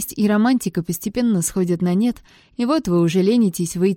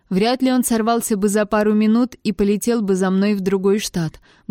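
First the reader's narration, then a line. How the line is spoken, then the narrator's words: Grumbling mutter. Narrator (Russian): буркнула Брианна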